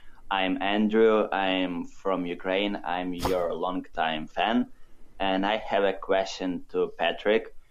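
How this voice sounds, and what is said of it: Foreign accent in English. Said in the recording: “I hope you will be able to figure out my accent”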